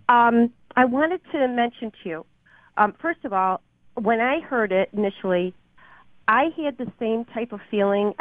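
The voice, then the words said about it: Hoarse, congested voice from a cold. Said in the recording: “excuse my voice. I'm suffering from a cold.”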